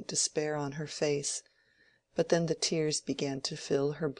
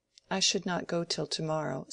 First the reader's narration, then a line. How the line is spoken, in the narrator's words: said Rosamond